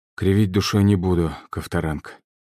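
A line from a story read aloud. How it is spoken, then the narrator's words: Sighing. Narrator (Russian): вздохнул генерал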